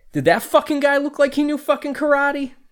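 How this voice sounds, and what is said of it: Put-on northern New Jersey accent. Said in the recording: “You say it like a northern New Jersey fella”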